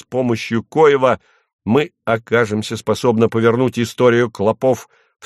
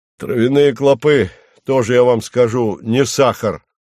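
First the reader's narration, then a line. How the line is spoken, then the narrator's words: Grumbled. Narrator (Russian): проворчал консервативный хлебовводов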